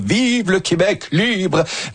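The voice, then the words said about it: Mediocre Charles de Gaulle impression. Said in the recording (French): “Moyenne imitation, mais l'intention était là ... On dirait qu'il avait la grippe ce jour-là.”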